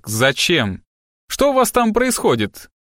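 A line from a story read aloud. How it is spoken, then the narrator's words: Distant grumpy shout. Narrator (Russian): выкрикнул с нижней площадки сварливый голос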